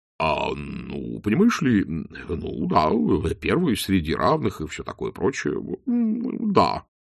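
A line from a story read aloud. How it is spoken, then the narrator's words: Mumbled. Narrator (Russian): промямлил Чудакулли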